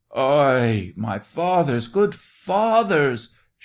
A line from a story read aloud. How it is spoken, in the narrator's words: shrieked the soldier, beseeching them not to touch him